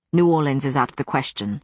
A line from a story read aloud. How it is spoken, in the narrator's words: Matthew said sharply